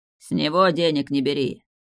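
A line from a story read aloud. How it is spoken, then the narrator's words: Menacing growling tiger. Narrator (Russian): Тигр, грозно рыча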